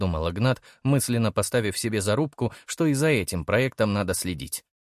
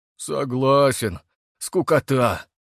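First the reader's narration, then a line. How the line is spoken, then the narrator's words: Glum agreement, boar. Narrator (Russian): согласился кабан, уныло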